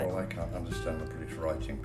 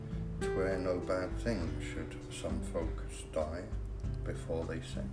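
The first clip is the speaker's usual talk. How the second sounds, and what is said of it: British accent. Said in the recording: “your British accent”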